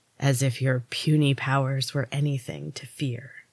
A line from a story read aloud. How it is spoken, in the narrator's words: hissed